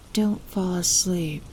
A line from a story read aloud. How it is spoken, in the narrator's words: I whispered faintly